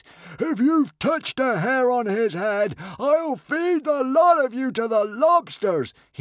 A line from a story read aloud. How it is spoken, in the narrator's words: roared